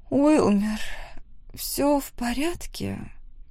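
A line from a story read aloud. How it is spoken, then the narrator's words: Soft sleepy voice. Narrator (Russian): Нежным и сонным голосом спросила Бенедикта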